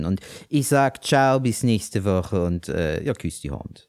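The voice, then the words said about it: Put-on comic German dialect. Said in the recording (German): “ohne komischen Dialekt ... es ist Dialekt.”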